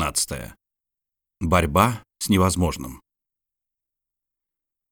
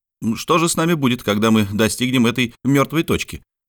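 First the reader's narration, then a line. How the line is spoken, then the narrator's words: Plain. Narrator (Russian): спросил Ардан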